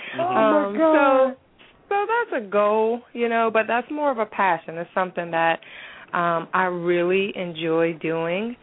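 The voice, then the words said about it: Deep American Southern accent. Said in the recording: “I have a southern accent. I have a deep southern accent. I go in and out of it.”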